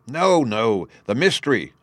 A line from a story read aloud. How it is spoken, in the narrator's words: cried